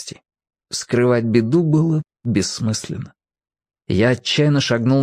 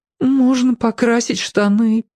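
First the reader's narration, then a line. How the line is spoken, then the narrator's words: Sobbing. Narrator (Russian): всхлипнул я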